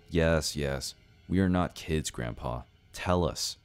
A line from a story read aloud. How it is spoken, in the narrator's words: I said in a confident tone